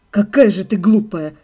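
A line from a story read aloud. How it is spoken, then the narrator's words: Scornful snort. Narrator (Russian): фыркнул Себастьян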